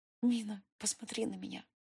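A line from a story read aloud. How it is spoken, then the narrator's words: Silent mouthed whisper. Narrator (Russian): Одними губами прошептала я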